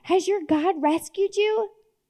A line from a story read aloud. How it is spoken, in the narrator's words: cried out